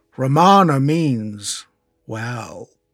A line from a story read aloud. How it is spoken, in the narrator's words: he said slowly